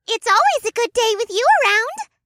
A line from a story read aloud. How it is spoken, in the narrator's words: adorable ball of fur squeaked in my ear